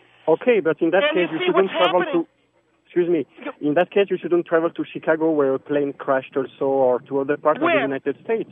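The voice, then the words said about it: French accent. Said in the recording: “your French accent is so beautiful”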